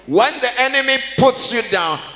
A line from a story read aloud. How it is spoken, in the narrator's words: he shouts